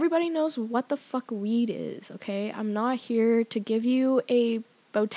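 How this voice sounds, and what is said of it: Usual voice. Nothing is said of it.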